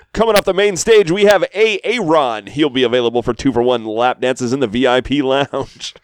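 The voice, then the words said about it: Strip club DJ announcer voice. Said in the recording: “my strip club DJ voice”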